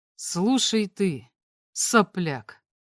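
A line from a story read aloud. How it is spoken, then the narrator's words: Completely calm. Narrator (Russian): сказал я совершенно спокойно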